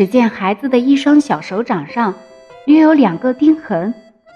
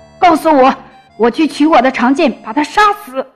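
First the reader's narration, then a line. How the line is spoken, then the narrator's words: Roaring giant. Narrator (Chinese): 巨人吼道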